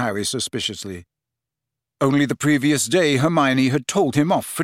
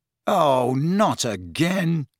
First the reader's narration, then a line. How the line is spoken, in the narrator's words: groaned